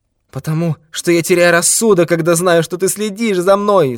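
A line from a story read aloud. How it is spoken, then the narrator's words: Shouted. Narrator (Russian): закричал Канцер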